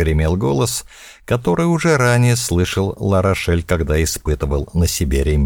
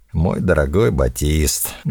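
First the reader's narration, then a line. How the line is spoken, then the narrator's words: Deep sigh. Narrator (Russian): глубоко вздохнул голос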